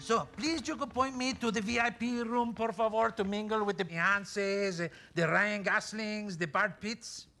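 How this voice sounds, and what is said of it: Spanish accent from Malaga. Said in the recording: “His accent reminds me of my youthful days in Malaga.”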